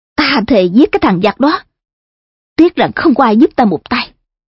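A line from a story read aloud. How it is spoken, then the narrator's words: Angry. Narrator (Vietnamese): Ngô Thạc giận dữ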